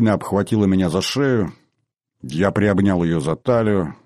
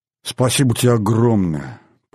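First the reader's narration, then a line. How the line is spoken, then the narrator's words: Woman moaning. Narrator (Russian): простонала скво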